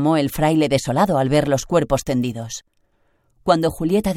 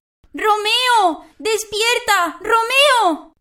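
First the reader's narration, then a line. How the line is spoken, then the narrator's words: Inconsolable shouting. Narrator (Spanish): gritaba sin consuelo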